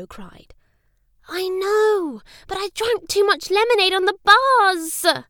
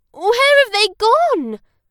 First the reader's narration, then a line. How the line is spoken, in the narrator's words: Tom cried